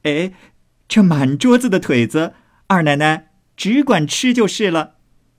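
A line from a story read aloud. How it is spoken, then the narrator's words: Loud. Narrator (Chinese): 高声又说道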